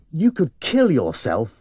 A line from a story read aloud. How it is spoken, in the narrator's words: I said angrily